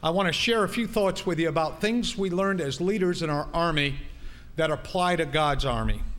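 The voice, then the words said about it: Northern US Yankee accent. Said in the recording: “you're going to hear that Yankee thing going on ... some you'll hear some Southern accent come out”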